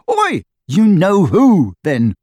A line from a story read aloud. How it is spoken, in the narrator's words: Harry shouted, goaded past endurance